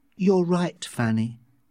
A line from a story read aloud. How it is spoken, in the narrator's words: Lenina said slowly